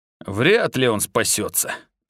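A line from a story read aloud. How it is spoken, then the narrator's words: Mutter. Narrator (Russian): пробормотал Пэт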